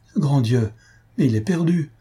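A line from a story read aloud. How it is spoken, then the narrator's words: Desperate cry. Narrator (French): s'écria Albina avec désespoir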